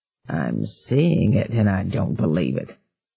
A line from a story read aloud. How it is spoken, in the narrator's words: Jingles muttered